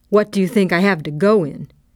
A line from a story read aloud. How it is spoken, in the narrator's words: She burst out impatiently